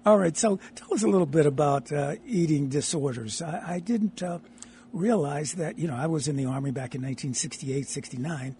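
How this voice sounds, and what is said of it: Raspy, hoarse voice. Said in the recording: “excuse my raspy voice. I'm a little raspy and a little hoarse, but I normally don't sound like this”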